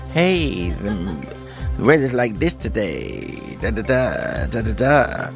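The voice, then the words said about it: Posh put-on American accent. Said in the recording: “You've done it in your posh little American accent”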